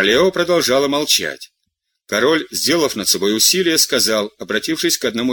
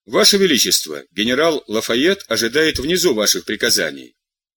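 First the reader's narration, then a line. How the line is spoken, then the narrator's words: Firm voice. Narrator (Russian): Жильбер, несмотря на холодность, сказал твердым голосом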